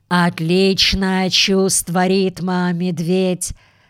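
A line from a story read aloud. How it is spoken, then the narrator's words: Slightly hoarse male voice. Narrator (Russian): сказал он с легкой, однако, хрипотцой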